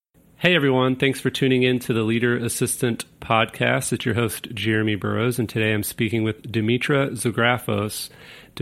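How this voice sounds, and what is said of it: Sleepy, tired voice. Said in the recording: “it's 1 a.m. on a Saturday morning, and that's why my voice sounds sleepy”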